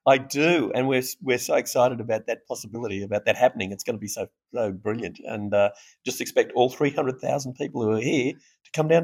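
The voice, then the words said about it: Australian accent. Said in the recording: “from my accent you can hear I'm Australian”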